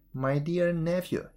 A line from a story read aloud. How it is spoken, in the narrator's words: he said